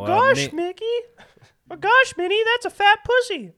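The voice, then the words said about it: Mickey Mouse cartoon voice impression. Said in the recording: “You got any impersonations? ... Your Mickey one was pretty good.”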